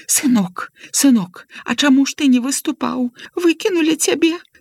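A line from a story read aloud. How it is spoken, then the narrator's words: Tearful question. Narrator (Belarusian): спытала яна плаксівым голасам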